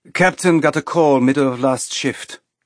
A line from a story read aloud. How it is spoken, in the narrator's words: the woman said in a clipped accent that sounded European to Naomi